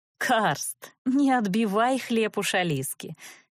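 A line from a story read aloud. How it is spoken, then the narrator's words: Slightly forced laugh. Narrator (Russian): Чуть натянуто рассмеялась я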